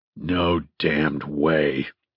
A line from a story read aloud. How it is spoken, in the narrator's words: he snarled